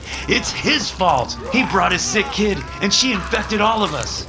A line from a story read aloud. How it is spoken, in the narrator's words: shouted